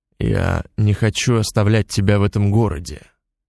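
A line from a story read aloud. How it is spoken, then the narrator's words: Calm. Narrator (Russian): спокойно произнес Алексей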